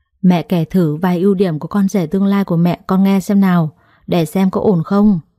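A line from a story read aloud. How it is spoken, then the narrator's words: Sighing. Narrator (Vietnamese): tôi thở dài rồi nói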